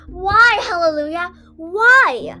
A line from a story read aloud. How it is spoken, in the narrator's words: I shouted into my palms